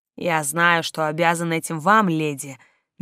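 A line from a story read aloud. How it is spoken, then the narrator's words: Soft telepathic voice. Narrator (Russian): мягко прозвучало у меня в сознании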